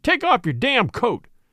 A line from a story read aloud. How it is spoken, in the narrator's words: he roared at last